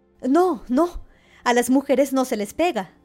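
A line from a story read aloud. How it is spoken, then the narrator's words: Woman exclaiming. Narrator (Spanish): ella exclamó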